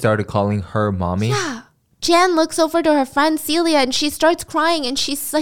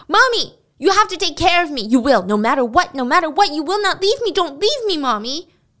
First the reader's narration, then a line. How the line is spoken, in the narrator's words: Al starts shouting